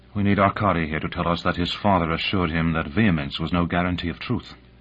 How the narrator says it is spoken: Voronova muttered

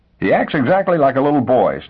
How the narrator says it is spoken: snapped Miss Fellows, annoyed into the defensive

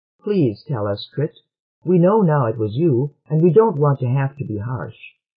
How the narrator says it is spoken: Losten interposed, saying more kindly

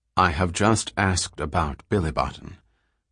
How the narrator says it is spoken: said Selden quietly

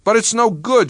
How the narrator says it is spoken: she said fiercely

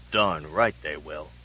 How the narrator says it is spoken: muttered Lupoff

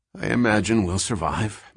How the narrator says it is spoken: muttered Selden

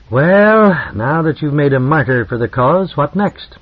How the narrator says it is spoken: said wearily

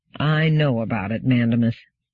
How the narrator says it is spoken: said Amadeiro wearily

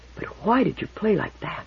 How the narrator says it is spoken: she whispered

